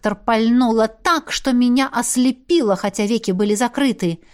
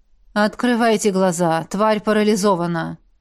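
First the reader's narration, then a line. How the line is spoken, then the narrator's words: Tired voice. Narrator (Russian): устало произнесла ректор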